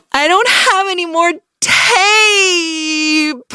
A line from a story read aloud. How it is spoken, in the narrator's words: wailed